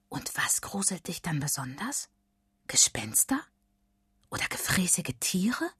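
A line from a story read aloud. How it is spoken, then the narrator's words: Excited whisper. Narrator (German): flüstert Emily gespannt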